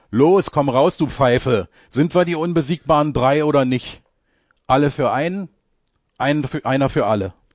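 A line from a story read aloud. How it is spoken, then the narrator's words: Called out. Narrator (German): Semper ruft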